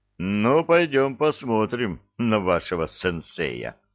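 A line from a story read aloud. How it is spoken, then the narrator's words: Smirking officer. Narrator (Russian): хмыкнул подполковник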